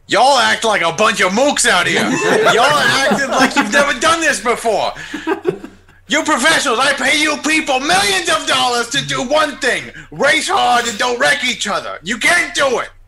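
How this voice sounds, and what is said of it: Impression of Roger Penske's accent. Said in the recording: “I love Roger Penske's new accent, man.”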